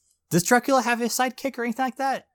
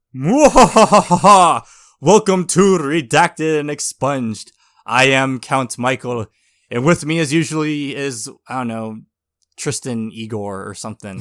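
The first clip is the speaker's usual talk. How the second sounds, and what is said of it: Spooky Dracula-style vampire voice. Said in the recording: “in a spooky Dracula voice”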